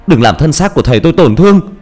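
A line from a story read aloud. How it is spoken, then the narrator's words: Screaming. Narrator (Vietnamese): Tôi gào lên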